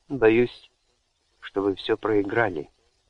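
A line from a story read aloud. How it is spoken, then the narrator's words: Soft. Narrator (Russian): мягко ответил ей Гордене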